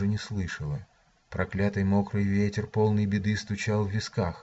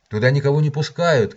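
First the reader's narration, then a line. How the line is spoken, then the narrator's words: Shouted after someone. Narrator (Russian): крикнул он мне вслед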